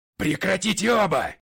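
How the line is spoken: Yelling. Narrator (Russian): заорал я

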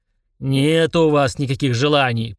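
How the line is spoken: Roaring genie. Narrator (Russian): проревел джин

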